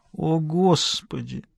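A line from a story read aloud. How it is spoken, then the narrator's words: Disappointed groan. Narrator (Russian): Разочарованно простонала она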